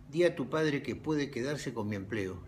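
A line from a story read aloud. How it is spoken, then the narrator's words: Almost apologetic. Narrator (Spanish): dijo, casi en tono de disculpa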